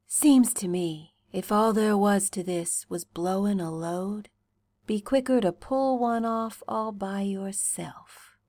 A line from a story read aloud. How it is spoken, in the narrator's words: murmurs, with his cheek against your temple